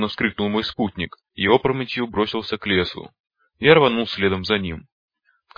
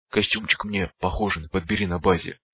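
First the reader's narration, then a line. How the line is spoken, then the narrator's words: Whisper. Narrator (Russian): прошептал я, падая рядом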